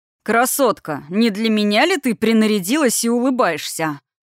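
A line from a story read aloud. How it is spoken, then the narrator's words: Cheerful, pleased booming bass. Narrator (Russian): Наглый медведюка весело довольно пробасил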